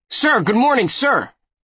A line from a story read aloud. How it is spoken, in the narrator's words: Dumbo shouts